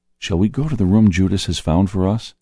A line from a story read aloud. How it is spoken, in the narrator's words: Peter whispered to me